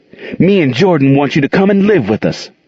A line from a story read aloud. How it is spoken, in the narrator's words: Monique looked encouraged, took a deep breath, and blurted